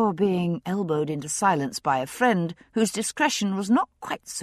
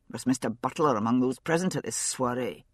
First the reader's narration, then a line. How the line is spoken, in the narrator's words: Jamie asked sharply